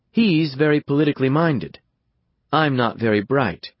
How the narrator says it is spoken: she answers coolly

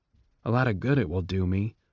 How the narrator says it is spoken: Clemencia murmured to Coriolanus

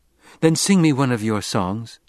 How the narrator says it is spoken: Chani pleaded

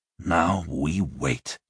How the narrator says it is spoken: Joshua hissed

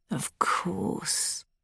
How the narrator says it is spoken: Danny murmurs

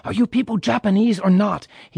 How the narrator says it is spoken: Father lost his patience and shouting

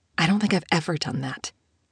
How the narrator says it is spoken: Isabel whispered

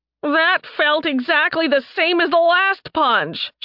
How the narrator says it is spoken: she howled

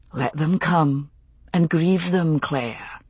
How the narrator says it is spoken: he whispered

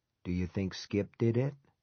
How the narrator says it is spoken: Lowering his voice, he said

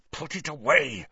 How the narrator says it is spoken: snarled Snape

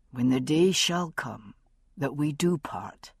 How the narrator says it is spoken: he said softly

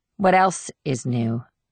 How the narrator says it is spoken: Julie replied in an even tone

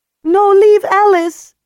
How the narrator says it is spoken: she says desperately

